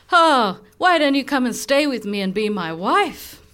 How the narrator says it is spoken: he started laughing, saying

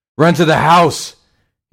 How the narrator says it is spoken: screamed as he sprinted

